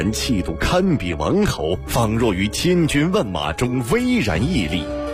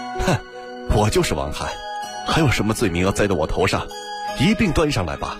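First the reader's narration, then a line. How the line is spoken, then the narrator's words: Cold sneer. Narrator (Chinese): 王翰冷笑道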